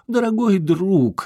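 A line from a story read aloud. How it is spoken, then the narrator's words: Exclaimed. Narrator (Russian): воскликнул лорд Скосо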